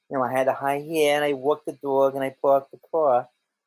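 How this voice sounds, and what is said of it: New York accent twang. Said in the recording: “as a New Yorker ... sometimes I lapse into my accent, my my twang.”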